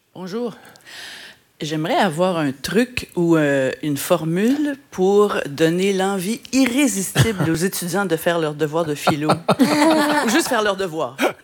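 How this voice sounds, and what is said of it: Slight Québécois French accent. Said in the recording (French): “Petit accent québécois, peut-être? ... Oui, quand même.”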